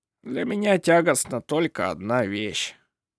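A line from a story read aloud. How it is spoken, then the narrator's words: Gloomy old man. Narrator (Russian): мрачно сказал старик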